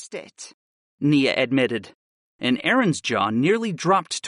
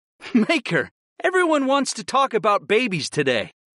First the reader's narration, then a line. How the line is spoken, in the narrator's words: I laughed